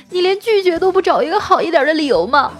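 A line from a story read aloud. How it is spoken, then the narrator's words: Loud sobbing. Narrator (Chinese): 那女生……蹲在地上大哭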